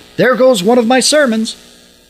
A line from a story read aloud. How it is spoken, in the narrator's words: Suddenly he shouted